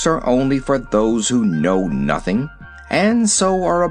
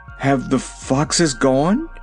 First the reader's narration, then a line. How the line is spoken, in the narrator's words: it asked in a trembling voice